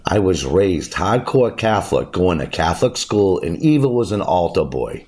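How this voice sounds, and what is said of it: Boston accent. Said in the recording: “It's where the Boston accent originated... my accent is legit, and this is how I talk.”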